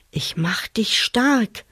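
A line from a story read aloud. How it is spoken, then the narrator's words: Ring suddenly whispering. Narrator (German): flüsterte plötzlich der Ring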